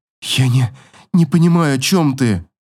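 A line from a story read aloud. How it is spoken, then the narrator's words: Convulsive sobbing, trembling. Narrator (Russian): Судорожно всхлипываю, а губы дрожат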